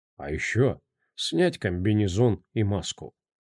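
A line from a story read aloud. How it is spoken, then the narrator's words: Calm. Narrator (Russian): спокойно добавил Седой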